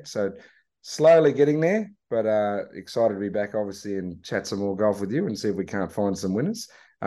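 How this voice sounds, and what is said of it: Hoarse, raspy voice. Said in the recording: “a little bit hoarse still ... Had a little bit of laryngitis”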